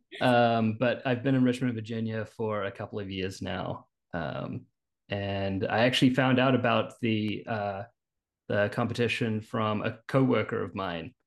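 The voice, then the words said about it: New Zealand accent. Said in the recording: “You'll notice a bit of an accent. I'm actually originally from New Zealand.”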